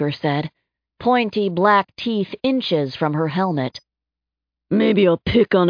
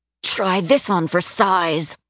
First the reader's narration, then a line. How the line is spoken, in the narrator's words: Samantha said through gritted teeth